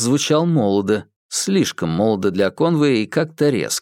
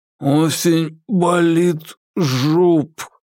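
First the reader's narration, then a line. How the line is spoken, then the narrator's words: Moan. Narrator (Russian): простонал Курц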